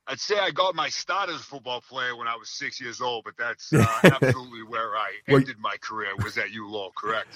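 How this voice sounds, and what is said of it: Boston accent. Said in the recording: “your accent gave you away as a Bostonian”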